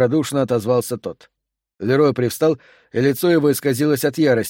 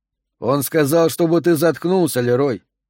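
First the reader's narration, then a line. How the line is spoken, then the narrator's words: Calm remark. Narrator (Russian): спокойно заметил Марвин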